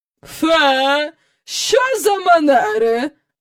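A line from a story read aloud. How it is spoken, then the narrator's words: Exclaiming. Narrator (Ukrainian): вигукнула міс Ендрю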